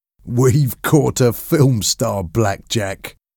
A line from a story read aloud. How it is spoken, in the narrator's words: laughed Mickey